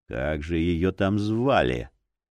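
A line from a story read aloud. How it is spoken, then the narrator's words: Quiet grumble, old man. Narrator (Russian): тихонько проворчал старик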